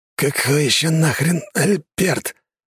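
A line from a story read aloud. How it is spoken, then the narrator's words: Through gritted teeth. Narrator (Russian): процедил жнец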